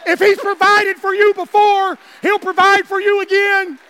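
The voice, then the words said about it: Screaming, loud preaching. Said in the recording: “I'm sorry if I'm screaming”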